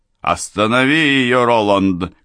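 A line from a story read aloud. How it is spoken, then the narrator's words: Shouted. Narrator (Russian): крикнул Райм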